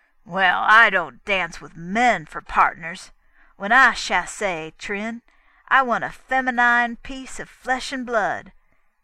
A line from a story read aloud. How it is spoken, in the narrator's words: sneered